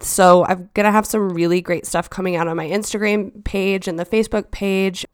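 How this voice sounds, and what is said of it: Slightly scratchy, hoarse voice. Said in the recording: “tell from my voice, I was battling a head cold, and while I feel a lot better now, my voice is still a little scratchy”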